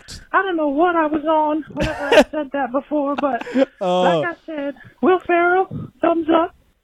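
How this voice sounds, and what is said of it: Southern American accent. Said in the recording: “Why does she have like a southern accent?”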